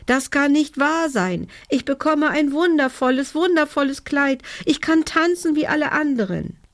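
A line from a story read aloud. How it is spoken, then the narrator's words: Call. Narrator (German): rief sie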